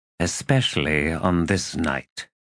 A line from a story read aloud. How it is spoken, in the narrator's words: he said, his tone low